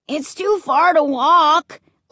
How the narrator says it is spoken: Luke wailed

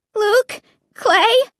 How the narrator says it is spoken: I called to them in a trembling voice

